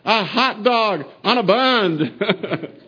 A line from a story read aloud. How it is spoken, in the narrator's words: they're yelling out